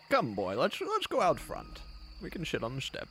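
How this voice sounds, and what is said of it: Put-on character accent. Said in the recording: “Wow, your accent.”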